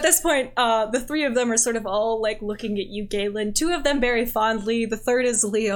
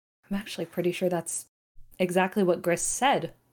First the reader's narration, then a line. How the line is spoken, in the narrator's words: Leone kind of chuckles under her breath and says